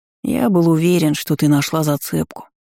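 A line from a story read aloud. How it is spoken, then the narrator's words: Sighing. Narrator (Russian): вздохнул Костик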